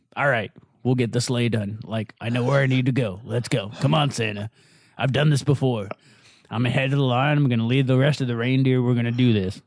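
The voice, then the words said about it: Bad Ron Perlman impression. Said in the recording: “a real bad Ron Perlman impersonation”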